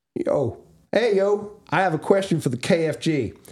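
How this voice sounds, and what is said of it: Put-on American accent, sounds Southern. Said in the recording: “I want to hear your American accent. ... your New York accent ... What kind of Southern bullshit is this?”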